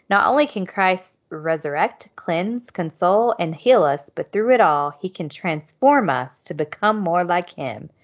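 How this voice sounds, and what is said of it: Reading like an infomercial pitch. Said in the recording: “you sounded like an infomercial ... this is an infomercial”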